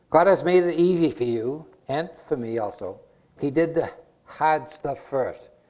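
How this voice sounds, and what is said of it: Massachusetts accent. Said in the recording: “my Massachusetts accent”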